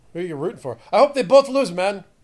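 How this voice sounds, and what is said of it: Put-on Greek accent. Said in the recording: “That Greek accent... That's the accent. That's what he would say.”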